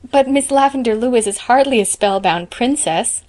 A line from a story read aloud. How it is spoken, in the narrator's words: laughed Diana